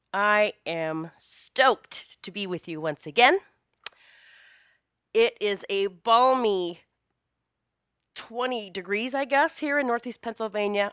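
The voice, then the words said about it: Slightly raspy voice. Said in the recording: “My voice may sound a little raspy still ... it has shown up with me as an upper respiratory thing, chest, head voice”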